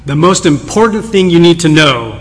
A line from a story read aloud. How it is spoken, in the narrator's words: boomed, as if speaking from an invisible pulpit